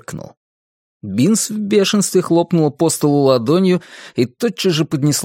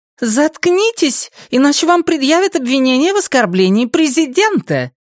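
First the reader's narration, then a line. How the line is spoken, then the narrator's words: Sharp, stern. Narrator (Russian): резко произнесла она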